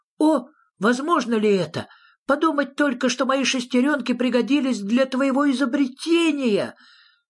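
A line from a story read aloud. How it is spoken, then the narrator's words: Small animal exclaiming. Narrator (Russian): зверок Шнырок воскликнул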